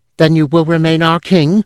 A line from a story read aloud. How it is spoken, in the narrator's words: an elf cried